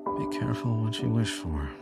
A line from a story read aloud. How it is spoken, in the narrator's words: he muttered to himself